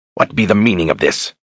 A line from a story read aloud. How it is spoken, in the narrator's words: Brogan growled